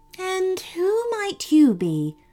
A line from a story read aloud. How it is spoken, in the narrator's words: asked the queen gently